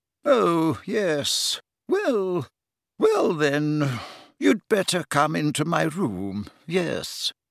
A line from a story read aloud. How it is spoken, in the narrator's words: she said feebly